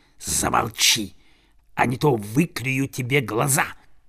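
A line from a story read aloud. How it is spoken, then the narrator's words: Hissing. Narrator (Russian): самый большой из окруживших его ворон прошипел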